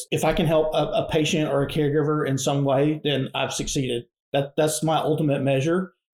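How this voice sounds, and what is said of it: Southern American accent. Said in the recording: “your Southern accent ... You couldn't tell us from Georgia.”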